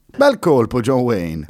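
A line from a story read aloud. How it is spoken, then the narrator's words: Girl exclaiming. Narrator (Italian): esclamò la ragazza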